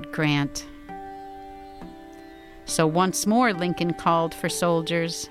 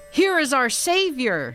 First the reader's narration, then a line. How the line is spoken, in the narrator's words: cried